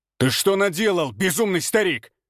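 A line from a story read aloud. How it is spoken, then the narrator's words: Shout. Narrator (Russian): выкрикнул мастер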